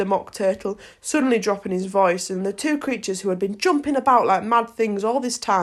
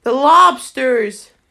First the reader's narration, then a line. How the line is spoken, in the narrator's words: shouted the Gryphon with a bound into the air